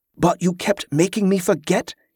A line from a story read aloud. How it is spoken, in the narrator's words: he snapped